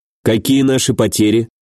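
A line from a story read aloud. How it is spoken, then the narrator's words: Calm. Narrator (Russian): спокойно произнес я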